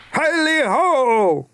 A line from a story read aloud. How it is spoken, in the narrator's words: cried old Fezziwig